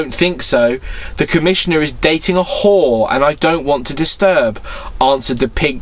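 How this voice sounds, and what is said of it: Usual voice. Nothing is said of it.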